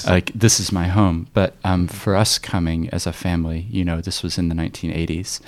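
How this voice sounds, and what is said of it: American-sounding accent. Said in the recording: “you can hear from my accent that I actually grew up in the States until I was 7”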